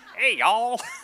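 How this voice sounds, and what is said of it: Put-on American Southern accent. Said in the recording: “Imagine if it's like some southern.”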